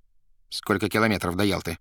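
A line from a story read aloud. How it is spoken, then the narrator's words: Plain. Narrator (Russian): спросил Римский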